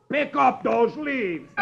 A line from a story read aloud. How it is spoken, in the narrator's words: roars